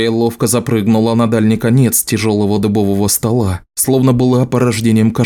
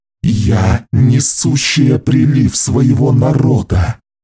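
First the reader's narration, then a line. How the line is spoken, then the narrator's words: Low guttural growl. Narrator (Russian): Низко и гортанно прорычала она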